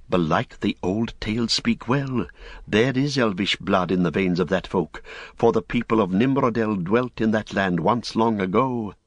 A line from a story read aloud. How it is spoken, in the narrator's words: Men that saw them whispered, saying